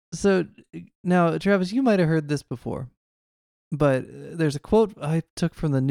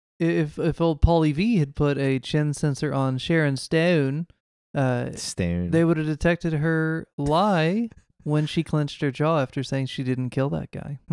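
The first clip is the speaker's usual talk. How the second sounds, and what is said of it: Pretty good impression of Stew. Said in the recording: “I like your Stew impression there. It was pretty good.”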